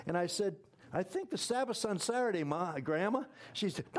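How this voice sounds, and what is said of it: Usual voice. Nothing is said of it.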